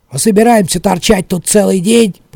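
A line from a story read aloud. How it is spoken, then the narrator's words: Grumbling. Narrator (Russian): проворчал Талли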